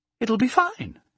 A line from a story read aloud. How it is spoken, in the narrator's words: cried brightly